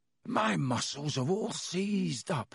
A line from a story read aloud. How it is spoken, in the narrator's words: he groaned